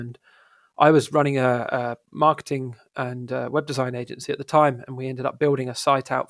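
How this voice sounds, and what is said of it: British accent. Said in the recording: “I'm based in the United Kingdom, as you can probably tell by the accent”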